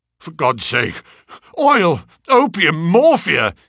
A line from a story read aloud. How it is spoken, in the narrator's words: he cried